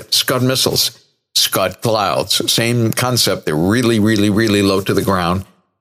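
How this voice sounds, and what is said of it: Hoarse voice. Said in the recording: “putting up with my hoarse voice. I'm going to give my vocal cords a rest”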